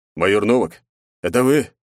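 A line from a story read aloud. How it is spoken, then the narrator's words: Hoarse male voice. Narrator (Russian): прохрипел мужской голос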